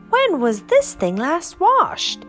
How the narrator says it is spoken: he called out

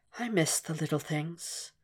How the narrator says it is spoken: almost whispered

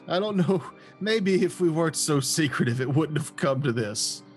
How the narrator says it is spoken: my character generally laughs like a belly laugh at this person and goes

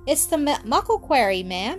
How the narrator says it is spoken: answered Donal

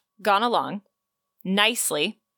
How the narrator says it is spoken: scoffed

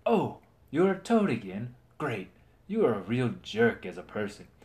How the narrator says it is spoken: Sir Aegon noticed happily

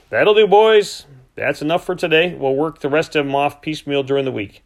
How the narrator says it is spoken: Bent called out

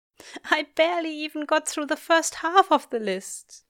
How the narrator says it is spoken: he says with a sodden laugh

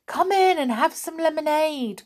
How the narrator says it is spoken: cried the little folk

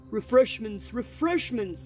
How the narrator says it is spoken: roared the old man

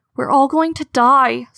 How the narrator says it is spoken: Squirrel Whisker wailed

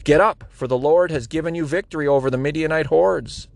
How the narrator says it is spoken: he returned to the Israelite camp and shouted

